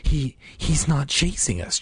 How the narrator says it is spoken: Joss whispered, his chest heaving as he struggled to catch his breath and stifle his fear

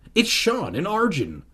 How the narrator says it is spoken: Hannah cried

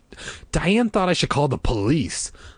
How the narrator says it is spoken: she snapped edgily

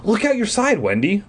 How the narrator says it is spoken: Mom cried from the front seat

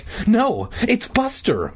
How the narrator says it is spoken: Mindy cried

